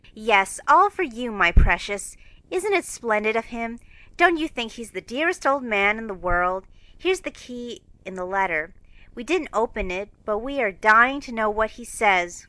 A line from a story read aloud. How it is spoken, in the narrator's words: cried Jo